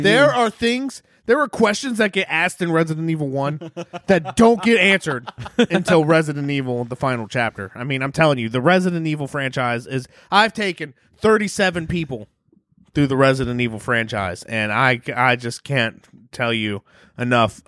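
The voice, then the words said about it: Impression of a friend. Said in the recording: “that was a really good Steven impression.”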